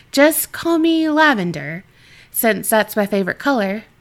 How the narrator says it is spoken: she laughed

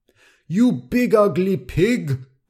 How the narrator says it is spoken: Crush shouted

